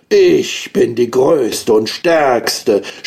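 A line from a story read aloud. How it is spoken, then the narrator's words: Thundering storm wave shouting. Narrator (German): schrie die Sturmwelle mit donnernder Stimme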